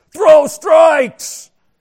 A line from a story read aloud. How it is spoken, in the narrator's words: coaches from the sidelines yelling